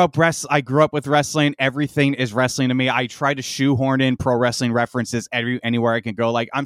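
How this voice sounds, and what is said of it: Usual voice. Nothing is said of it.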